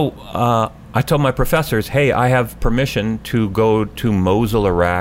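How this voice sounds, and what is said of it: Usual voice. Nothing is said of it.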